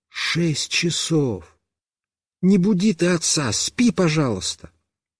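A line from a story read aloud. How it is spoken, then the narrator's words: Whispered. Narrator (Russian): мама прошептала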